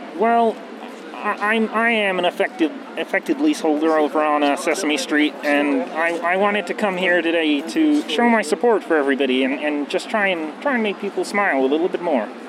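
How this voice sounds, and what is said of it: Kermit the Frog character voice. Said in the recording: “his spot-on Kermit impersonation”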